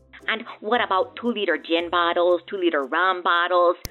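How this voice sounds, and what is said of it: Put-on Minnesota accent. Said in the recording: “doing a Minnesota accent ... I was impressed ... Very good ... You did a great job”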